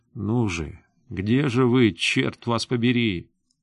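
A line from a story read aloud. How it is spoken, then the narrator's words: Quiet whisper. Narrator (Russian): Семенов тихо шептал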